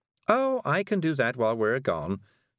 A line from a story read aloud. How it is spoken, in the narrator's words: said Miss Level cheerfully